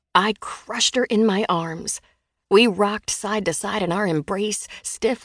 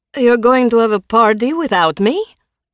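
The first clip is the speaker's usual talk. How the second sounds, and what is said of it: Thick Russian accent. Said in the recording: “A thick Russian accent”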